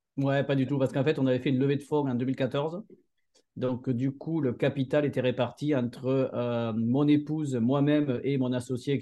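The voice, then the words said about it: Southern French accent, Montpellier area. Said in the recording (French): “On entend bien ton accent que tu es plutôt du côté de Montpellier.”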